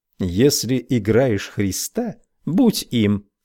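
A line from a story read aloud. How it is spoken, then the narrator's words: Plain. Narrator (Russian): сказал я Христу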